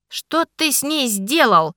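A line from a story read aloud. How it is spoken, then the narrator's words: Growl. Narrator (Russian): рыкнул Ричард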